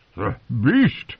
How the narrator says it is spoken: he gasped

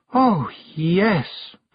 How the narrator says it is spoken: breathed Anagramma

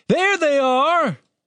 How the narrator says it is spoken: voice bellowed

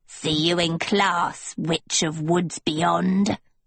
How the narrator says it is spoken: the hag croaked

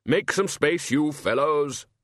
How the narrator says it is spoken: the Arch-Chancellor bellowed

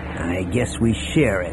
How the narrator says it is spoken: Han said in a rankled tone

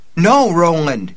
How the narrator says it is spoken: she cried, her own horrified voice

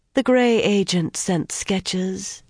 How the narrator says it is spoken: she said blandly

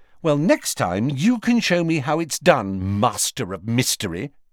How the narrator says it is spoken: she snapped

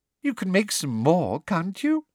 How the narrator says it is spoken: she said, her voice becoming more sweetly girlish, as it always did when she was furious

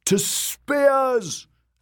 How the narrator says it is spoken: a man bellowed from a balcony

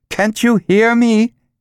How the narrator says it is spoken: she said loudly

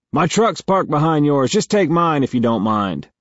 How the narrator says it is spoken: yells

